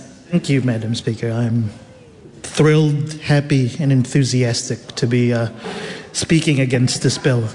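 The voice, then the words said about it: Unenthusiastic tone despite upbeat words. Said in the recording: “I'm thrilled, enthusiastic, and happy despite what my tone of voice and demeanor might suggest”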